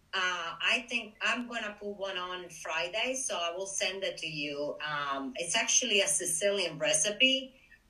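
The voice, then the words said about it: Italian accent. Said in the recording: “she's from Italy. You can tell from the accent”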